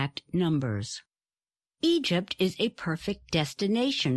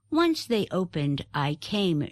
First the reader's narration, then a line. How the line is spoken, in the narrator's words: she said